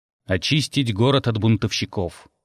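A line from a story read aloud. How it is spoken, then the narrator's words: Plain. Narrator (Russian): ответил Дар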